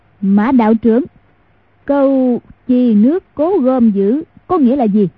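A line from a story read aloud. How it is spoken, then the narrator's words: Loud. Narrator (Vietnamese): lớn tiếng nói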